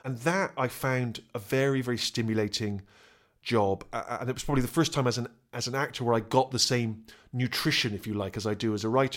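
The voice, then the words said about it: Bristol West Country English accent. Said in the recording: “I come from a place called Bristol in the West Country. I have quite a distinctive accent if you're from the UK ... It's a bit like how pirates speak ... sort of that kind of seafaring voice, and my accent sort of you know, has a whiff of that to it ... the voice that a farmer would have”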